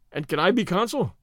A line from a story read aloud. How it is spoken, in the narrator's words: said Stedman cheerfully